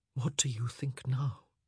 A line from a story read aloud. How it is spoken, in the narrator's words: He whispered